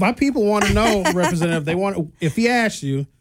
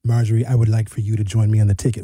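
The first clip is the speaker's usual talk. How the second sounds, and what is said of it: Imitates another person's voice. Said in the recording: “That was a great impression,”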